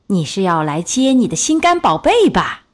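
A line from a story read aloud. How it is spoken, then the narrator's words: Shouting. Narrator (Chinese): 女巫叫道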